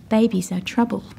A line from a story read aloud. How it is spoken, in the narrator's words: I said